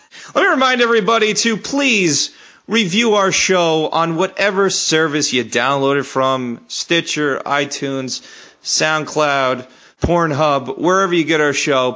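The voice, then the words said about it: Hoarse, strained voice. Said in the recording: “my voice is blown out”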